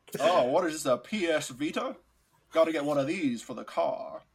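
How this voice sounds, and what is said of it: Imitated southern, 1930s-mobster-like voice. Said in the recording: “my Kevin Spacey impression ... with the southern accent ... You sounded very much like a 1930s mobster.”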